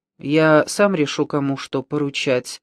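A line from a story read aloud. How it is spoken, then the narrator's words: Even voice. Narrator (Russian): ответствовал Пота ровным голосом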